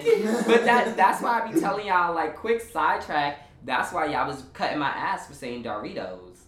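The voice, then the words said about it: Southern American accent. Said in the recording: “I got that little Southern accent. ... Southern twang.”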